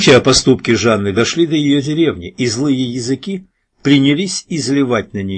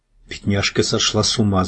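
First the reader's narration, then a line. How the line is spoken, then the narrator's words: Crowd whispering. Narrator (Russian): зашептали в зале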